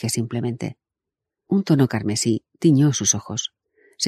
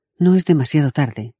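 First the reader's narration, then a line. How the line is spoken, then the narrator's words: Dry curt. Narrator (Spanish): dijo secamente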